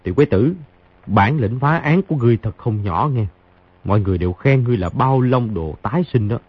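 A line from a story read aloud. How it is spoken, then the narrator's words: Soft chuckle. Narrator (Vietnamese): Khang Hy cười khẽ một tiếng nói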